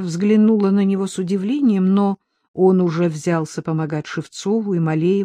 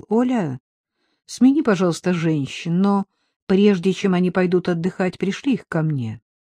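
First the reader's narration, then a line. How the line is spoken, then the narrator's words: Detached, absent voice. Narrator (Russian): абсолютно отрешенным голосом попросил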